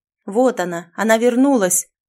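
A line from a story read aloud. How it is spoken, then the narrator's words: Shouted, group. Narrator (Russian): Они закричали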